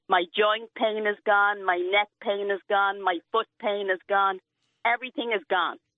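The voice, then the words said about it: Irish accent. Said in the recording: “Irish ... I love her accent”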